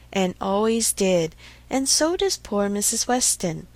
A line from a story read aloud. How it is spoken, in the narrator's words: with half a sigh and half a smile